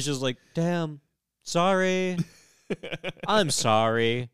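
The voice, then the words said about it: Flat monotone apology. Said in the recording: “the most monotone ... doesn't shed a tear, doesn't look emotional”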